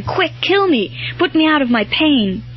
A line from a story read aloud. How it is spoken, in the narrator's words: cried out in a kind of desperation